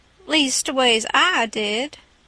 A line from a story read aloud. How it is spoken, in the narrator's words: the king drawls out